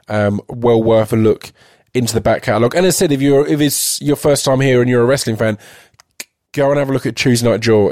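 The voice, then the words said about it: Weak, failing voice from illness. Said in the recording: “As you might hear, my voice is about to give away. I've been in bed ill for 2 days ... trying to get enough of my voice. But I'm losing it already.”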